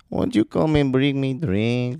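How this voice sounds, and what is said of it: Put-on Mexican accent. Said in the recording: “gets to do his Mexican accent”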